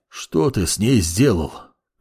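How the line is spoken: Hoarse rasp. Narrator (Russian): Прохрипел Гевлерон

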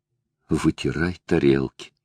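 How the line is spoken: Unexpected mumble. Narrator (Russian): Лара неожиданно для себя пробормотала

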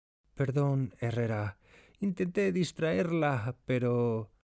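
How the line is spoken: Low voice. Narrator (Spanish): Pinzón dice en voz baja

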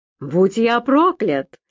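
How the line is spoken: Exclaimed. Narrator (Russian): воскликнул

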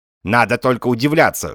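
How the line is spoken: Old man, tinny voice. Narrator (Russian): жестяным голосом сказал старик Кукушкин

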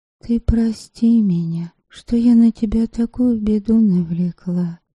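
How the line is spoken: Whisper. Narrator (Russian): шепнула

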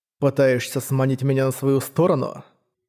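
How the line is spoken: Cold question. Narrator (Russian): холодно спросил Манхао

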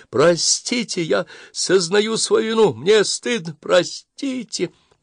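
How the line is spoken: Loud sobbing. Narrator (Russian): Он продолжал громко рыдать

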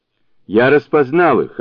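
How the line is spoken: Offended. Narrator (Russian): обиженно ответил Сунь-Укун

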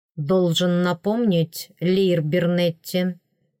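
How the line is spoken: Bored voice. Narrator (Russian): скучающим голосом сказал принц

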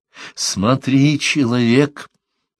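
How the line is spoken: Muffled, slightly hoarse voice. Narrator (Russian): говорила она глухим, чуть хриплым голосом

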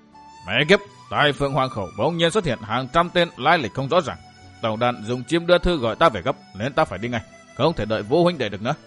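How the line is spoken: Angry speech. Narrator (Vietnamese): tức giận nói

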